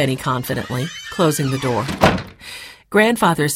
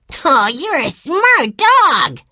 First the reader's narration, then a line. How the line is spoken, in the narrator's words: cried Benny